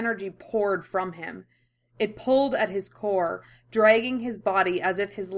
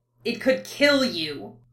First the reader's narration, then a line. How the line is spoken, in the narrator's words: Carmine spat, her shrill, furious words